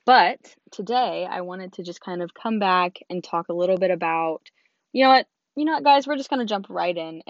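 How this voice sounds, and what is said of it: Lost voice, sounds like young boy. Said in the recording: “my apologies for my voice. I sound like a prepubescent 13-year-old boy. That is because I lost my voice.”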